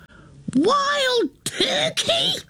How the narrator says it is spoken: She screams

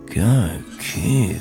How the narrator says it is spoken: Brian muttered

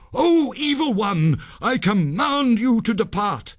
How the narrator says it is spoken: Sanjay cried

